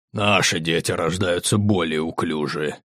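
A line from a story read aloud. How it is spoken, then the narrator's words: Displeased muttering. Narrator (Russian): недовольно пробормотал Угорх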